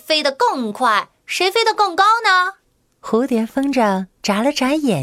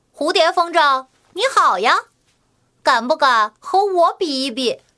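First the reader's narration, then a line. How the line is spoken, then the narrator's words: Laughing greeting. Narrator (Chinese): 笑着和它打招呼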